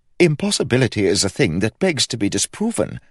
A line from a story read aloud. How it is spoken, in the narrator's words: said Ned brightly